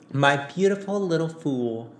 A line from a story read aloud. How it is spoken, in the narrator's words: Daisy cooed